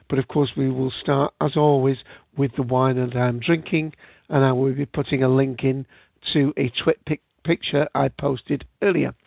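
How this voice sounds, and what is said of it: British English accent. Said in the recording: “as you can tell from my accent, here in the UK”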